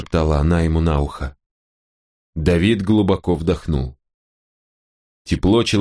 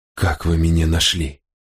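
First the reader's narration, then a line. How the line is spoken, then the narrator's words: Trembling-voiced question. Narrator (Russian): спросил он дрожащим голосом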